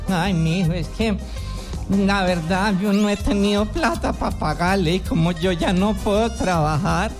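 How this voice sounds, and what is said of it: Old lady character voice. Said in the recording (Spanish): “voz de viejita”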